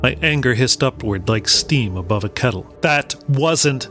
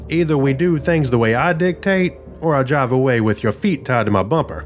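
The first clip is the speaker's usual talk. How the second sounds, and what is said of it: Character voice, slight Southern accent. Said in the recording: “slight southern accent”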